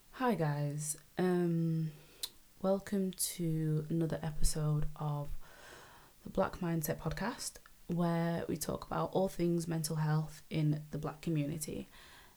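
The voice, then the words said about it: Tired-sounding voice. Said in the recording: “I'm pretty sure you can tell by my voice, I am tired.”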